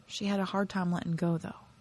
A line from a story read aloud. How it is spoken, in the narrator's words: he muttered